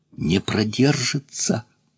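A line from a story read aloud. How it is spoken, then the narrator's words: Grumpy tone. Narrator (Russian): Тон у Эраста Петровича был такой брюзгливый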